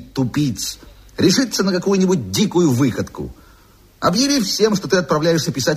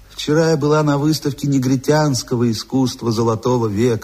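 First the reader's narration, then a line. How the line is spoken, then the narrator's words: Melodious voice, rolled sounds. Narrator (Russian): сообщила она своим певучим голосом, раскатывая звонкое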